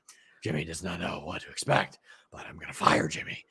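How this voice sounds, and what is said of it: Breathless imitation of another person's voice. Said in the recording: “your best Vinnie Mac impression ... you sounded like Vince Man after you just run on the treadmill for 40 minutes”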